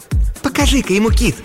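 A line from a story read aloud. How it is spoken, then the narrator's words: Exclaiming woman. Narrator (Russian): воскликнула блондинка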